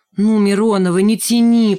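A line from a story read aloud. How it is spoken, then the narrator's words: Moaning plea. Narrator (Russian): простонал Рыжий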